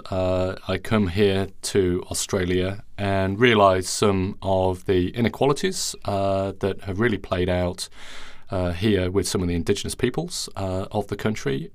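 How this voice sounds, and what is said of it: Non-Australian foreign accent. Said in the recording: “I'm not Australian. I've got a funny accent, so I come from overseas.”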